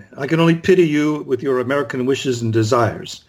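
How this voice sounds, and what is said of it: Put-on snooty French accent. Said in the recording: “we want to hear a great French accent from ... you're about as snotty and snide as a typical French person”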